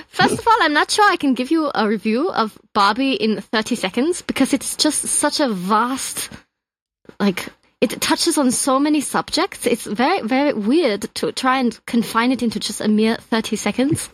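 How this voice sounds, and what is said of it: Put-on German accent. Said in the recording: “I want your 30-second review of Barbie in a German accent.”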